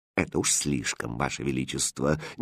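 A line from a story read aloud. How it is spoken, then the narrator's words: Displeased undertone. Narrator (Russian): недовольно вполголоса сказала королева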